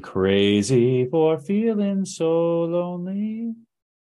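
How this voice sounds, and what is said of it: Imitates another person's singing voice. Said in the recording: “That was my best Patsy Cline impression... That was really good.”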